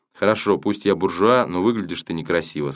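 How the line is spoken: Plain. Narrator (Russian): сказал я

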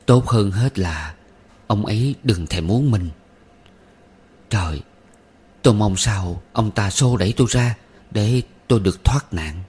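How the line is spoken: Moaning to herself. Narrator (Vietnamese): Chị rên rỉ một mình

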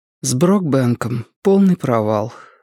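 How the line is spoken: Strained, forced out. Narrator (Russian): выдавила Робин

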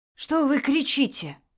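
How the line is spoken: Indignant whisper. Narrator (Russian): Также шепотом возмутился Микола

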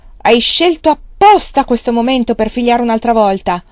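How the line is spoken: Angry, exhausted shout. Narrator (Italian): Così le gridò, pieno d'ira per la fatica

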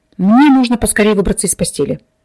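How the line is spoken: Reluctant mutter, wounded man. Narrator (Russian): нехотя пробурчал раненый

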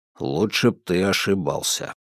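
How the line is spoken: Low grumble. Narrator (Russian): вполголоса пробурчал Фрайпан

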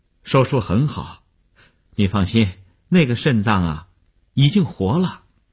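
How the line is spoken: Relieved, reassuring smile. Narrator (Chinese): 医生放心地笑笑说

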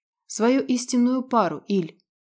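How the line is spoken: Sighing. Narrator (Russian): вздохнула Ярослава

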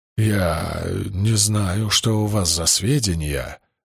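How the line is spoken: Strained, struggling for composure. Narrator (Russian): выдавил Эшфорд, усиленно стараясь овладеть собой

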